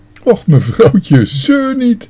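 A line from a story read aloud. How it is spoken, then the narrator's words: Calling out. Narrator (Dutch): riep de parkmeester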